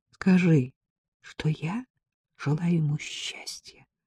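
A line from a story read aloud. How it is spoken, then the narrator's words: Whisper. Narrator (Russian): прошептала она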